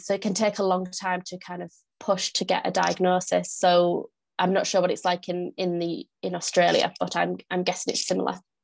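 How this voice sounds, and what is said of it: Northern English accent. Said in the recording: “if you can't tell from my accent, I am from the UK. I'm from the north of the UK. I live in York.”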